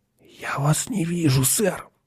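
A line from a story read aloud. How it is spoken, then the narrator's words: Whisper. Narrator (Russian): прошептал он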